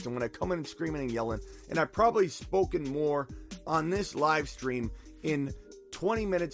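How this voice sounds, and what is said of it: Hoarse, worn-out voice. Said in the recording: “I'm losing my voice again. I never got it back ... They may sound rusty.”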